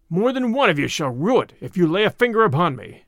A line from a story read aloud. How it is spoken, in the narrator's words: cried Little John